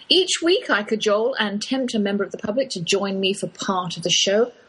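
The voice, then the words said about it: English accent, Oxford drawl. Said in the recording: “that's my English accent you're hearing, though I've lived in the Lone Star State half my life. I can't shake that Oxford drawl.”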